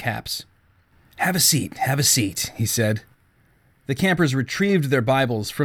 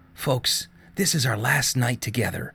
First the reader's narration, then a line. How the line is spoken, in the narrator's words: Dean said in a raspy half-whisper